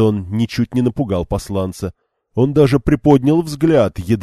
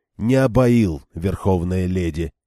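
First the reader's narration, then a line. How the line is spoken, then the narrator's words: Calm. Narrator (Russian): спокойно промолвил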